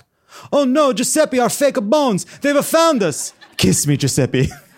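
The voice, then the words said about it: Put-on accent. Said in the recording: “It's the last accent you're allowed to do.”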